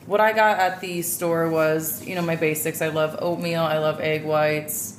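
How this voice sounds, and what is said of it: Low, croaky voice. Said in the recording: “your voice definitely got lower ... it's just getting worse and worse and worse. I sound like a little frog.”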